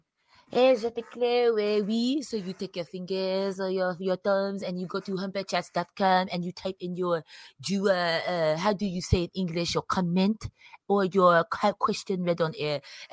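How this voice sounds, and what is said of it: Put-on French accent. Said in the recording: “I debated doing this in a French accent, but I won't. But it's the beret. ... You said do it? Okay.”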